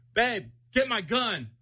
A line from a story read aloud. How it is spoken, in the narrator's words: yelled